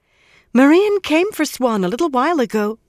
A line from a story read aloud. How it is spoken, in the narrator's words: Mirel said excitedly